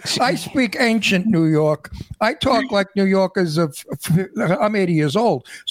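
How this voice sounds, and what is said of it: Old-fashioned New York accent. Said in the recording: “I'm a New Yorker, in case you didn't hear the accent ... I have an accent of years and years ago”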